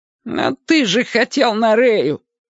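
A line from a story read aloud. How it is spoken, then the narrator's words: Unexpectedly high-pitched voice. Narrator (Russian): Это Кимыч, неожиданно тонким голосом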